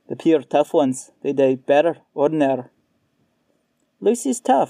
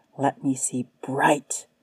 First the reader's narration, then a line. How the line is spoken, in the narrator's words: whispered